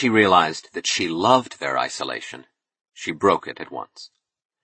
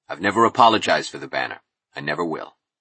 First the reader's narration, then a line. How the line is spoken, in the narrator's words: he said coldly